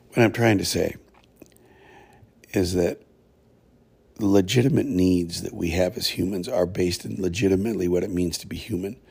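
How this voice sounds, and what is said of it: Strained, failing voice. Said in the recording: “I'm going to lose my voice completely.”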